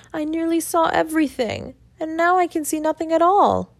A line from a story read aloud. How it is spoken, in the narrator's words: sobbing bitterly and saying